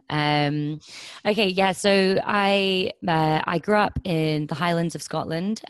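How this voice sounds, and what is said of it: Southern English Kent accent. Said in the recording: “the accent is probably slightly more Kent”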